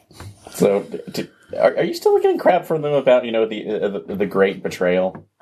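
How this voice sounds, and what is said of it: Sarcastic tone. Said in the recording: “Did you not hear the sarcasm in my voice?”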